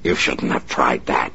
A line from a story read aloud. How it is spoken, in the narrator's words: he snarled